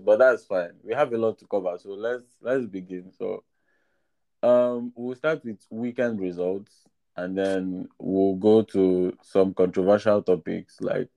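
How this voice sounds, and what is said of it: Sick, flu-affected voice. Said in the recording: “hear the flu in my voice”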